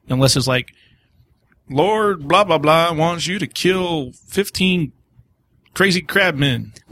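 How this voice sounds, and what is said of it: Put-on redneck accent. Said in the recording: “Why does everyone have a redneck accent tonight?”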